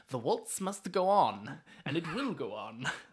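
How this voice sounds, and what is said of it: Put-on accent, unclear which. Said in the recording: “I don't know what accent that was.”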